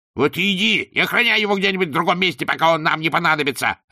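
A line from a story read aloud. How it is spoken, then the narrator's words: Barked. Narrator (Russian): рявкнул Руки-сила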